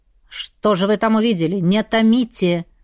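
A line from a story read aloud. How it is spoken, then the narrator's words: Irritated urging. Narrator (Russian): раздраженно поторопил Ривен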